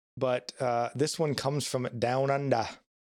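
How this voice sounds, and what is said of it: Attempted Australian accent, sounds British. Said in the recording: “I don't know if that was an Australian ... accent, British. They all mixed together.”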